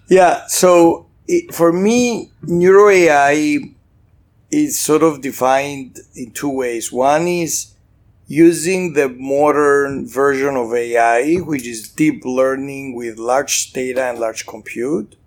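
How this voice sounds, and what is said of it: Slight Greek accent. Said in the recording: “Greek, slightly Greek accent”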